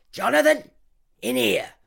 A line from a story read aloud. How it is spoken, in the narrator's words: barks Nurse Howard